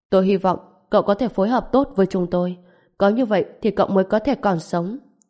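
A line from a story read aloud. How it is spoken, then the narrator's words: Cold, stern. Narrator (Vietnamese): Trần Bình ánh mắt lạnh lùng, nói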